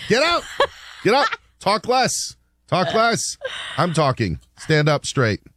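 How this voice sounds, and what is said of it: Bad imitation of a stern TV judge. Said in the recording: “doing a bad Judge Judy impression.”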